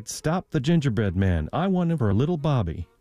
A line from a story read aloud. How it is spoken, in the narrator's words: cried